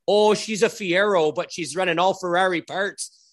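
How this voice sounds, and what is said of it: Put-on Alberta Canadian accent. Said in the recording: “in his Alberta accent”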